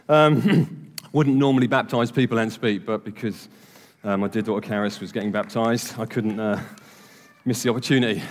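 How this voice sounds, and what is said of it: Slightly out of breath. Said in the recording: “I'm slightly out of breath, to be honest ... I'm just going to breathe for a second. Genuinely, I'm out of breath.”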